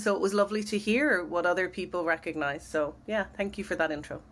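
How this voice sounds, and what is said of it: Dublin Irish accent. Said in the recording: “your accent, sounds like it's a Dublin accent-ish. ... It is.”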